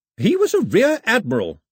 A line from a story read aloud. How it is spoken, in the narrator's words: her grandmother snapped